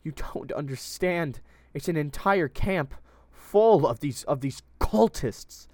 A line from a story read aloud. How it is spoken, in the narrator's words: the girl pleaded